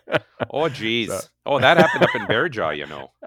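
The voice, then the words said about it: Put-on Minnesota accent. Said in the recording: “with the Minnesota accent”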